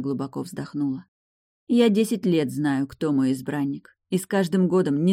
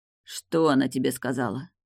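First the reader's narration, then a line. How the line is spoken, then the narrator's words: Sepulchral, hollow voice. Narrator (Russian): загробным голосом спросил Мортон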